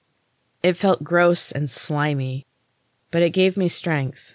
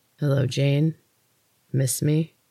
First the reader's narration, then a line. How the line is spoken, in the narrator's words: His voice sent chills through me